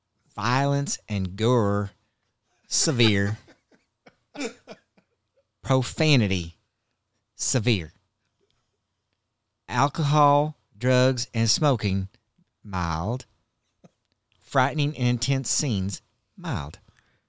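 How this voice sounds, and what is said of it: Put-on Southern American accent. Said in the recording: “Southern accent, please. ... that's not Southern enough.”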